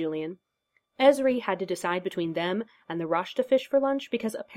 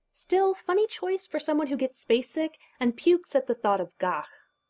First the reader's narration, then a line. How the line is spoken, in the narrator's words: commented Kira, and they all laughed